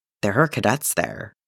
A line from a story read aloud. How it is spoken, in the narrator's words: he says, faintly shaken